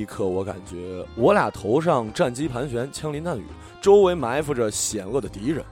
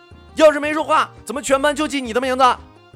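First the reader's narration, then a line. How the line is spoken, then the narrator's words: Impatient shout. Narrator (Chinese): 老师磨没了耐性，喊出那句全国中国老师都会喊过的口号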